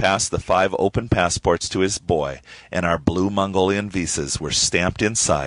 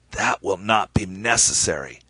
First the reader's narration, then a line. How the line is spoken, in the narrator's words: The ambassador said in a raspy voice